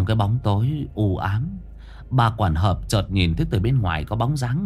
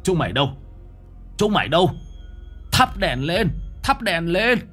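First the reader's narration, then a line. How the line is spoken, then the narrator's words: Loud shout. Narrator (Vietnamese): Ông Du hét lớn gọi người nhà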